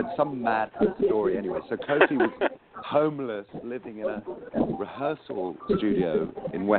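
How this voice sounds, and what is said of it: Usual voice. Nothing is said of it.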